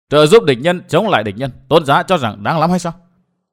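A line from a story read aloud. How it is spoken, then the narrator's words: Laughing loudly. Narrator (Vietnamese): Vân Thiên Nhạc cười lớn nói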